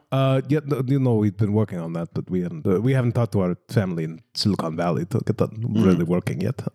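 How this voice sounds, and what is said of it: Attempted Russian accent. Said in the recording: “I can't do a Russian accent. I'm sorry.”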